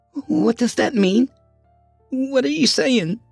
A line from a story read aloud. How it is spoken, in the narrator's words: Carla stammered